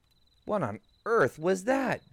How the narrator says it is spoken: Billy exclaimed

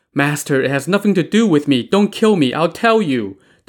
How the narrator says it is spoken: the maid pleaded

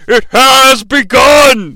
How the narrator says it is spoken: yelled

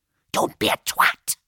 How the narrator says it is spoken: he hissed

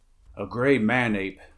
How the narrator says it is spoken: he grunted

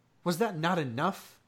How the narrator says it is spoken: he demanded fiercely

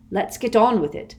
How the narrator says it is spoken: said Ron firmly

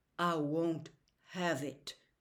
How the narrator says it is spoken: Atticus said softly

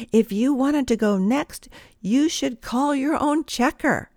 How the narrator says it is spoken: this same lady called out loud and clear

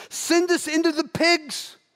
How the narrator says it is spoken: The demons begged Jesus

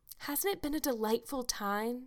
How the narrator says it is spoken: sighed Anne rapturously

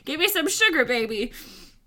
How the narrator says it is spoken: he yells to her back

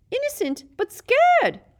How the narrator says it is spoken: squealed Petrigrew

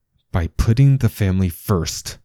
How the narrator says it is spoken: Chris said through clenched teeth

